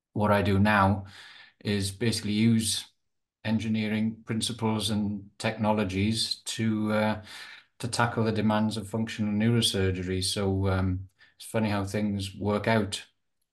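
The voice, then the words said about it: South Welsh accent. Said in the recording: “I went to medical school in the UK in Cardiff in South Wales, hence the accent.”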